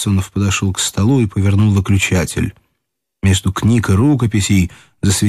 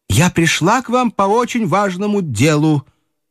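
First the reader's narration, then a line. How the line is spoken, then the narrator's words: High-pitched voice. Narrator (Russian): проговорила тем же высоким голосом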